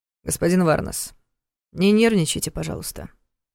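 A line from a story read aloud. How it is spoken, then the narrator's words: Conciliatory request. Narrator (Russian): примирительным тоном попросил Дементьев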